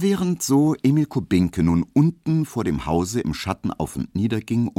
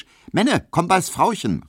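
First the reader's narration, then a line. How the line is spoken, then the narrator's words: Called out. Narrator (German): rief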